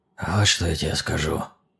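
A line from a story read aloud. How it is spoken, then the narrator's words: Young man, husky voice. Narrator (Russian): сиплым голосом произнес парень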